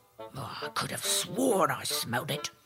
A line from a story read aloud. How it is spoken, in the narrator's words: The ogre kept muttering to himself